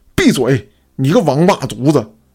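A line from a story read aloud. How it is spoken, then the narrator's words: Old man, furious. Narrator (Chinese): 老头 是怒的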